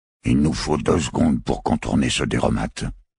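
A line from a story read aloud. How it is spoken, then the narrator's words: Low voice. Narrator (French): fit-il à voix basse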